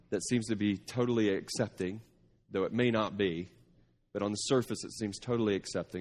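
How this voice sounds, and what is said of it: Slight Texas twang. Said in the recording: “you're from Texas. I can hear the little twang going on in your voice there”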